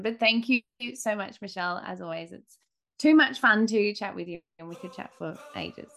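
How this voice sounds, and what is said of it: Australian accent. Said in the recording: “it's in the cutest accent. Like, you could just listen all day long. And maybe you'll start speaking Australian”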